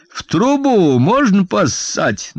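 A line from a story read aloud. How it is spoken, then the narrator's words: Mocking shout from above. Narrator (Russian): насмешливо крикнул он сверху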